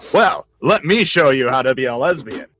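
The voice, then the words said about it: Announcer voice. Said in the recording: “With my exact announcer voice. That's how that would be said. ... The ... announcer voice.”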